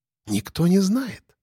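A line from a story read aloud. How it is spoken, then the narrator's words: Whisper, HR woman. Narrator (Russian): перешла на шепот кадровичка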